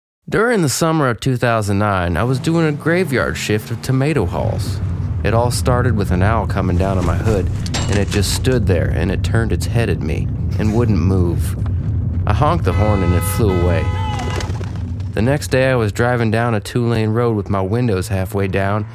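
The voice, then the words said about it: Put-on Southern drawl. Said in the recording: “should I do it like a Southern accent? ... Give it a little Southern draw.”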